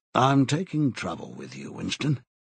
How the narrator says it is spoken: he said

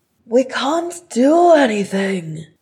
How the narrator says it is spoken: shouted Nori

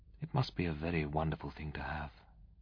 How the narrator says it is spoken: she said, half wistfully

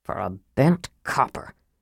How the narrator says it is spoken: Sturm muttered

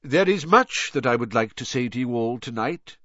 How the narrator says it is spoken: said Dumbledore

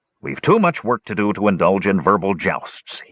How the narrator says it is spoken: he said irritably

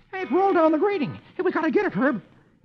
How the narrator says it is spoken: Dagwood exclaims

